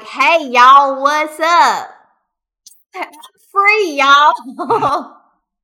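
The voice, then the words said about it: Put-on southern accent. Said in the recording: “I would give Karn a southern accent.”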